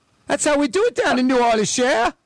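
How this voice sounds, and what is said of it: Imitates another person's bad accent. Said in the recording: “What accent is that? ... Bad.”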